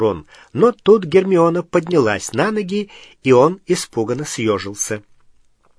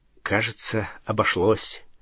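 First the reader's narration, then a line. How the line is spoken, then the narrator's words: Muttering. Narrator (Russian): пробормотал Гарри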